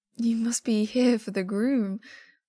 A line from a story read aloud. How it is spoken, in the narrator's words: Wei Ying says, voice choked